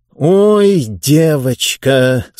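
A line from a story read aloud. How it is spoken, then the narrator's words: Through gritted teeth. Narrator (Russian): сквозь зубы процедил Мургатройд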